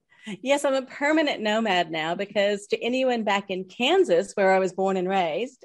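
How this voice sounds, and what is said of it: Slight twang, not Australian accent. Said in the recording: “there's a little twang to your accent there ... It's not an Aussie accent per se”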